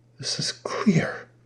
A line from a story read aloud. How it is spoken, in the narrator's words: said in a hushed tone